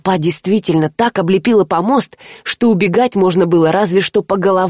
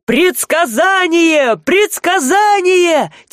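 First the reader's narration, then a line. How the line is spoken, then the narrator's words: Crowd yelling. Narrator (Russian): Теперь уже орали люди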